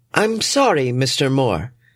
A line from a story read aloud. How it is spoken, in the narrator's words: she calls out in a soothing yet robotic tone